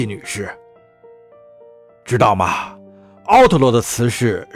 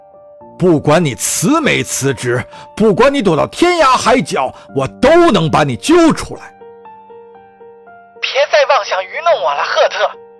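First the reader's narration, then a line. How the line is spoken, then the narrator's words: Loud shout. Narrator (Chinese): 米拉大喊一声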